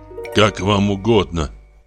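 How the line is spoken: Grumbling. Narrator (Russian): проворчал Урбенин

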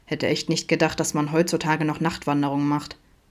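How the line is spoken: Grumbling. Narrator (German): brummte Adam in seine Richtung

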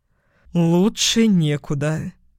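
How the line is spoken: Breathed out. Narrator (Russian): выдохнул

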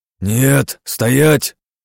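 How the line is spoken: Bark. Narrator (Russian): буквально рявкнул я

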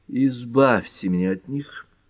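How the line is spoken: Pleading. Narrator (Russian): взмолился Эллери

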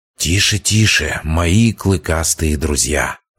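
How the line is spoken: Hissed. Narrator (Russian): зашипел я

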